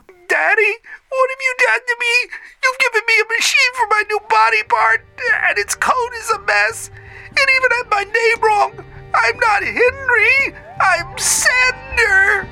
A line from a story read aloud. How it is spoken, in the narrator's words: A small child's voice screeched